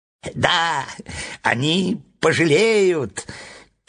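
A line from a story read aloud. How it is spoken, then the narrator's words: Squeaky. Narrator (Russian): пискнул клоун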